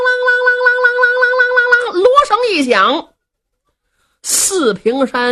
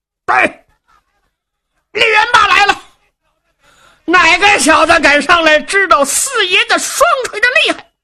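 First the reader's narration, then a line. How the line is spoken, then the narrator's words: Thunderous battle shout. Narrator (Chinese): 抖丹天喝喊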